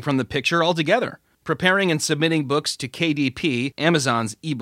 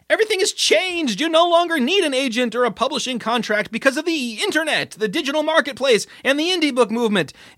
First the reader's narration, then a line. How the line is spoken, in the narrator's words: like a garage band frontman shouting